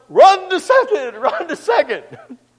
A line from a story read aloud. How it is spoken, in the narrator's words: Everyone yelled